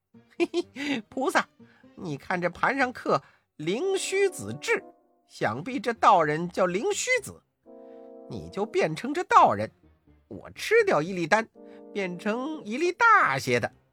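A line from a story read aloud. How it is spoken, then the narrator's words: Laughing. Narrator (Chinese): 悟空笑道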